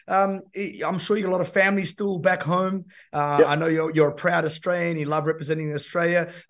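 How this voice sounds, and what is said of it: Czech accent. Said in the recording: “I'm originally from the Czech Republic, for those that are trying to pick up where that accent is from.”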